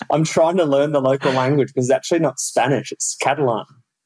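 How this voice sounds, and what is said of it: Strong Australian Perth accent. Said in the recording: “your Australian, your Perth accent is still fabulously strong”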